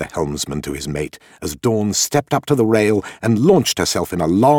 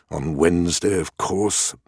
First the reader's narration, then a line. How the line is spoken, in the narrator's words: muttered the captain, reading aloud to himself